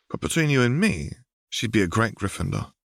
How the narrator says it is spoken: she said softly

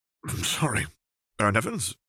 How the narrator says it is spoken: he choked

